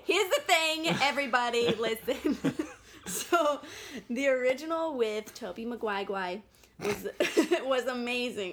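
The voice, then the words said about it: Put-on New York accent. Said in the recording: “Dropping into the New York accent”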